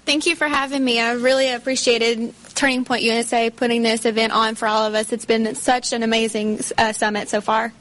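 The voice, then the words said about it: A noticeable, charming accent. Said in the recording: “Oh my gosh, that accent. That is just so perfect.”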